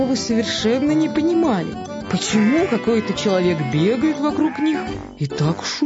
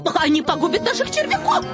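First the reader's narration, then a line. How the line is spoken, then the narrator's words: Shrieking hens. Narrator (Russian): завопили куры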